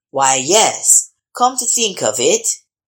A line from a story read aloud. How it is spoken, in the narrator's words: said the squire